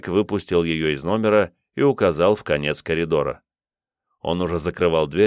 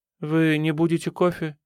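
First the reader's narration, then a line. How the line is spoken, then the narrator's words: Sad question. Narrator (Russian): печально спросила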